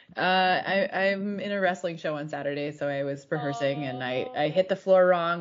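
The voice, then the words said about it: Slightly lower, odd-sounding voice. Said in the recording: “my voice sounds a little weird right now. ... It's like maybe like a lower octave.”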